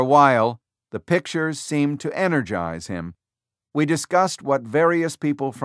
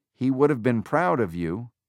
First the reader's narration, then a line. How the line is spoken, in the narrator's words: I murmured